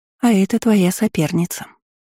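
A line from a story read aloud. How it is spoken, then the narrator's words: Gentle reply. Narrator (Russian): ласково ответила я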